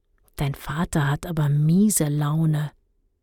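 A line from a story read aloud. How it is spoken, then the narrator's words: Whisper. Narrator (German): Guntram ... flüsterte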